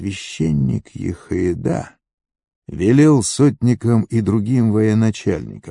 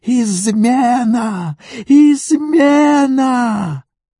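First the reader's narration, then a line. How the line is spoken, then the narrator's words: Shouting woman. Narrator (Russian): Гафолия закричала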